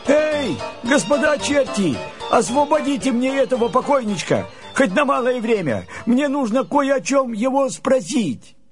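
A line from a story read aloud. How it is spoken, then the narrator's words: Shout. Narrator (Russian): Андрей закричал чертям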